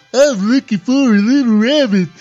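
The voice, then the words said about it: Cartoon character voice. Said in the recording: “I used to do one of my favorite Warner Brother cartoon characters ... That was awesome ... Great impression.”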